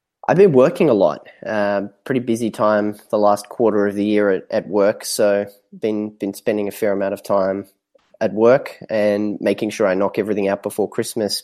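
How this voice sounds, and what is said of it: Australian accent. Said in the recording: “I'm assuming you're from there ... Yeah, if the accent didn't give it away already ... Australian”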